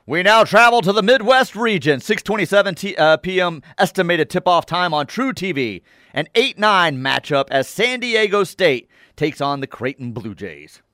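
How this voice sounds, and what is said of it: Sports announcer voice. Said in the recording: “your announcer voice is really good today”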